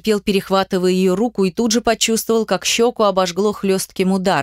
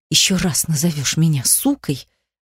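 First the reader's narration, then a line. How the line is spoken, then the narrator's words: Furious hiss. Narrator (Russian): Зашипела она с яростью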